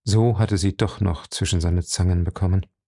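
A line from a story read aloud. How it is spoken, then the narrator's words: Gentle. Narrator (German): sagte er sanft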